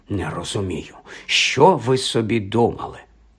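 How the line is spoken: Muttering under breath. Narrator (Ukrainian): Іноді вона бурмотіла собі щось під ніс

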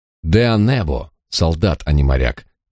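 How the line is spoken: Confident declaration. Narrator (Russian): уверенным тоном заявил чернобородый

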